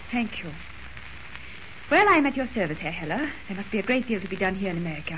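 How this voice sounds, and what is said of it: Fake foreign accent. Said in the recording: “Drop the phony accent.”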